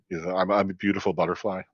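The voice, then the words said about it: Put-on German accent. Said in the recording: “like with the German accent”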